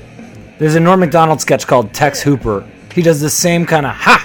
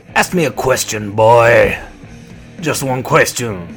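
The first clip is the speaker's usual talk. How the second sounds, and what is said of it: Put-on inexplicable New Orleans accent. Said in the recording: “this combination of inexplicable New Orleans. Pacino speaks in this accent.”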